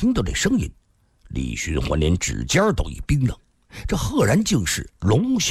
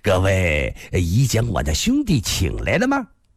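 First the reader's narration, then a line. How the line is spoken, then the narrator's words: Clear laughing voice. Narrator (Chinese): 屏风后一个人朗声笑道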